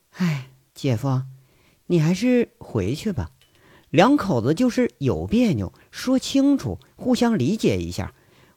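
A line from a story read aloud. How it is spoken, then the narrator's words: Sighing. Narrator (Chinese): 罗辑叹口气说着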